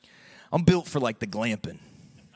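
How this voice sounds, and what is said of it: Put-on Southern accent. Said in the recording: “I had to say it with a southern accent”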